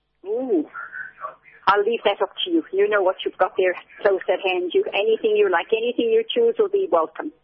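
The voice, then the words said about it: Irish accent. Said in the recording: “I am Irish. I'm sure you've gathered that from the accent.”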